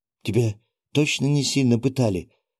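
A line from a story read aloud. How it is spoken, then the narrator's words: Trembling-voiced question. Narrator (Russian): дрогнувшим голосом спросила Катя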